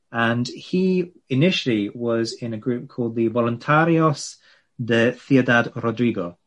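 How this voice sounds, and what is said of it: Poor attempted Spanish accent. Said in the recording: “That was an attempt at a Spanish accent. ... it was like appalling.”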